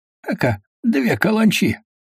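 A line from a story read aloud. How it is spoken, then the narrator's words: Laughing. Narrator (Russian): засмеялся Головин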